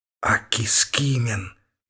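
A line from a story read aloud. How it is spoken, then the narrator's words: Whisper, wry smile. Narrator (Russian): шепнул Световидов с кривой улыбкой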